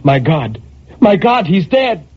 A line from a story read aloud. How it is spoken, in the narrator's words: a terror took hold of her, and she cried